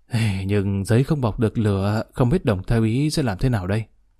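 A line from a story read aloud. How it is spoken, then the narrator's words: Sighing. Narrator (Vietnamese): Trùng Sứ Đạo thở dài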